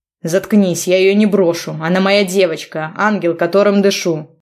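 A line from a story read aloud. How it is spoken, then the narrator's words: Barking snap. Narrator (Russian): Рявкнул на него Богдан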